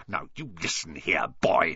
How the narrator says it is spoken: he snarled

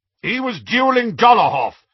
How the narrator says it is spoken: shouted Aberforth

